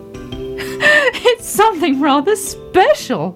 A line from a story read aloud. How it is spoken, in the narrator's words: laughed Daddy Ted